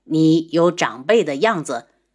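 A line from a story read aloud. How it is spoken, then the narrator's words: Cold voice. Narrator (Chinese): 轩辕志的声音很冷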